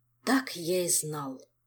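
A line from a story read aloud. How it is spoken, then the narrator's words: Quiet. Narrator (Russian): тихо сказал глава департамента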